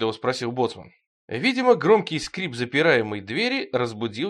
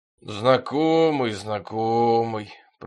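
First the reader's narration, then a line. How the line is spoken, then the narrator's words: Grumbling boatswain. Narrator (Russian): проворчал боцман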